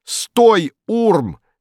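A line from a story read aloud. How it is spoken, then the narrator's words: High cracking shout. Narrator (Russian): кричал он высоким срывающимся голосом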